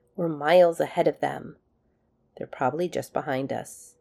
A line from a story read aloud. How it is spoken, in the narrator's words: McKay sighed expansively